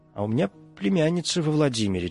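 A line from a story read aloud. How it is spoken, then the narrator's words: Old woman mumbling. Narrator (Russian): бормотала бабка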